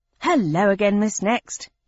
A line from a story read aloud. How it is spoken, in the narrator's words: said cheerfully